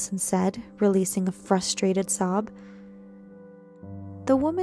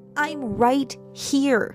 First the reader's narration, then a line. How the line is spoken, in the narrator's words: I shouted back